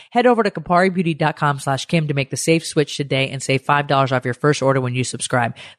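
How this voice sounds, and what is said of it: Congested, deep voice from a cold. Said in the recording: “I have a cold, so I sound like a man”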